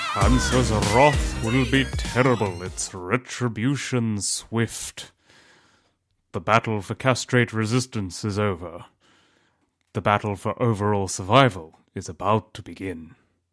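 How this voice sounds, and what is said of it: Imitates Gandalf's voice. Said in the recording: “my brilliant impersonation ... That was Gandalf from Lord of the Rings”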